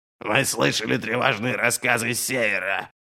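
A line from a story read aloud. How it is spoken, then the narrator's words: King's hoarse rasp. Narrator (Russian): прохрипел Верховный Король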